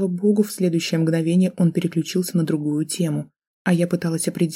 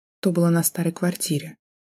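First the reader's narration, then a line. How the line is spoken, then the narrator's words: Quiet, choked lie. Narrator (Russian): тихим голосом солгала я в очередной раз, глотая колючий ком в горле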